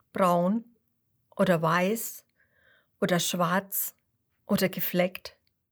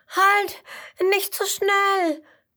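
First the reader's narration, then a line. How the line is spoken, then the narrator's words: Panting call. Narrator (German): ruft keuchend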